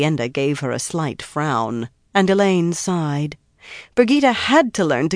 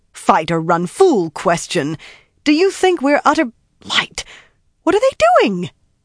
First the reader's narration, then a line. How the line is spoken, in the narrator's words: Her voice started climbing and kept right on